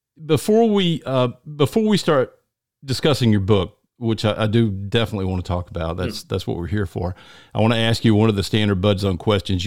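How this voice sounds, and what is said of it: Deep Southern American accent. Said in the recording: “I'm from the deep South, you can probably tell.”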